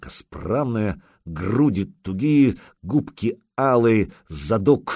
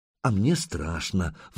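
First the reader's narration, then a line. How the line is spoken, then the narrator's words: Sigh. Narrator (Russian): вздохнула Лагодка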